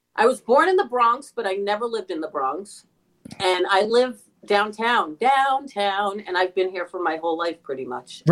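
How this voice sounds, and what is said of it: New York accent. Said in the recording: “you have a very definite New York accent.”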